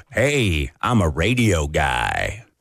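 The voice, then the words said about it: Deep traditional radio announcer voice. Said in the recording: “You got that sexy deep voice ... I've got a cold voice ... It's more traditional radio”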